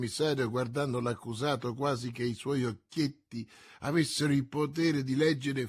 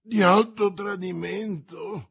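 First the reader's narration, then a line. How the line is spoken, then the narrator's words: Frightened exclamation. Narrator (Italian): esclamò Bonacieux spaventato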